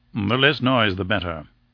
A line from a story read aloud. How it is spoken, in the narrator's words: said Lord Roxton curtly